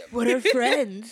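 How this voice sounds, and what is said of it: Imitates another person's voice. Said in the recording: “my Fandango impression”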